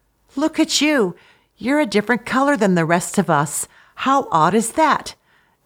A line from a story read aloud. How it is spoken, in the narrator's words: another cuttlefish had exclaimed